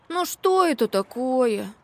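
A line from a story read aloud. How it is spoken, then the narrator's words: Sighing. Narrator (Russian): вздохнул он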